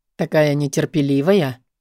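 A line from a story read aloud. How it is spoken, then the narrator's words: Hoarse chuckle. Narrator (Russian): хрипло усмехается он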